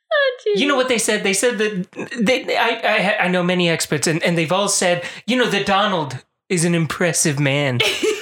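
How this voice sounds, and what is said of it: Poor Donald Trump impression. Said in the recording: “It's the worst impression I do”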